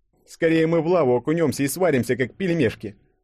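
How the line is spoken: Scoffing snort. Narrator (Russian): фыркнул Денис

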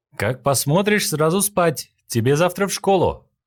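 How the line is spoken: Shouted after her. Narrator (Russian): Сразу же крикнул ей вслед Линь-Хуан

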